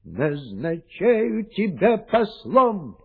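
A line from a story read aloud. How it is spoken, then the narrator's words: Hasty shout after someone. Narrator (Russian): поспешно крикнул вдогонку король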